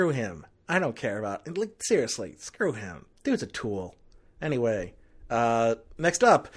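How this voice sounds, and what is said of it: Usual voice. Nothing is said of it.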